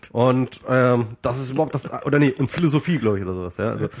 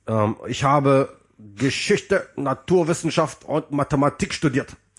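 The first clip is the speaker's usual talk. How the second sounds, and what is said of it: Axel Stoll impression, Nazi-style accent. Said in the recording (German): “er redet wirklich so mit so einem Nazi-Akzent, also so einem Nazi-Dialekt-Akzent, Akzent.”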